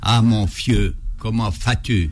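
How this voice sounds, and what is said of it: Strong Alsatian accent. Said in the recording (French): “Il avait un très fort accent alsacien ... il parlait alsacien”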